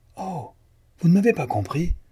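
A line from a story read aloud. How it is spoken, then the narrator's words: Exclaimed. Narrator (French): s'écria Jean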